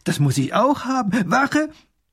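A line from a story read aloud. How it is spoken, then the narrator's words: Delighted call. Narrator (German): ruft der kleine Großherzog erfreut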